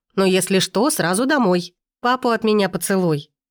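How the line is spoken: Cheerful. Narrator (Russian): говорю весело

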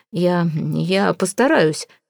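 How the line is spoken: Forced out. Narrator (Russian): выдавил я

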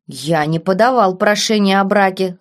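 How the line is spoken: Malicious, smiling duke. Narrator (Russian): злобно улыбнулся герцог

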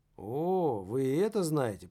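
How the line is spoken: Drawn-out drawl. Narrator (Russian): протянул Кейн

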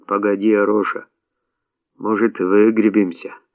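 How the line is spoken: Hoarse wheeze. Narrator (Russian): прохрипел Василий

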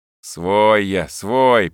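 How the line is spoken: Grumbled. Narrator (Russian): проворчал Сергей

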